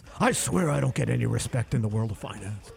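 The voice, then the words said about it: Imitates another person's voice. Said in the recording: “That's a terrible impression.”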